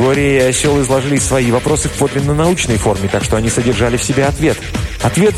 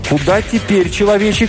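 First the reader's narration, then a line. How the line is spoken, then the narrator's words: Shouting creature. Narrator (Russian): полевин кричал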